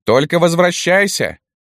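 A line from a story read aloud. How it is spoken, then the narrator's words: Group of women shouting. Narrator (Russian): закричали лилипутки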